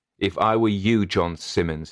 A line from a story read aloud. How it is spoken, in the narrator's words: he said